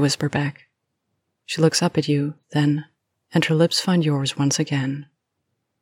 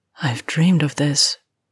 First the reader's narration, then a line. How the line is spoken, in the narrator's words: she sighs